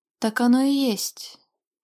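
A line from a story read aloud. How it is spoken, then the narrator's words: Dragon's sigh. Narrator (Russian): вздохнул дракон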